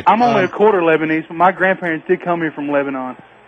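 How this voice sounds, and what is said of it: American southern accent. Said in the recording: “Lebanese with a southern accent”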